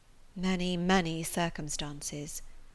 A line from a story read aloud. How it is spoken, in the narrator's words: said Eleanor solemnly